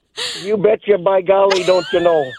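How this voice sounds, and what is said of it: Exaggerated northern Upper Midwest accent. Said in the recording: “I could hear it in your accent. ... I knew it was something up north. ... I love it. I heard that accent. ... I've heard that accent before, and usually it's when I'm on the ice.”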